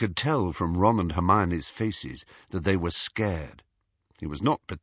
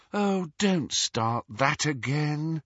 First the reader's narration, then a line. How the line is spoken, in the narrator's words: sighed Hermione